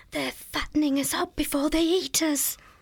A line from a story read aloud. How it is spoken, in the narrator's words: She whispered in a shaky voice